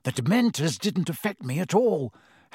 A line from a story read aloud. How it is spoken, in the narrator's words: Harry said excitedly